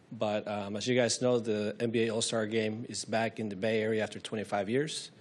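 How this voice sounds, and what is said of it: Sick-sounding, strained voice. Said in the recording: “Excuse my voice, I'm just recovering from being very sick.”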